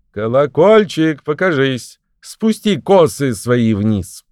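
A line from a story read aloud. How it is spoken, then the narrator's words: Shouting from below. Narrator (Russian): волшебница кричала снизу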